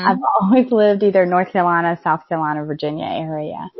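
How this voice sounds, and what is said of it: Southern US accent. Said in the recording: “the Southern accent”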